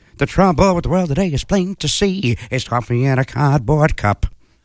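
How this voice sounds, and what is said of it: Sung imitation of another person's voice. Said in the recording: “my great Mandy Patinkin impression ... Not a bad Patinkin”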